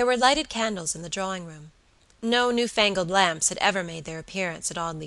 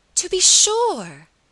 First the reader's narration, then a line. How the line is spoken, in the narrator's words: cried Miss Audley, with a vehemence